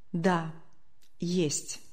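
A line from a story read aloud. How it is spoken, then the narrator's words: Quiet, embarrassed, penitent. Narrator (Russian): как-то тихо, точно конфузясь или каясь в совершенном поступке, произнес Матюнин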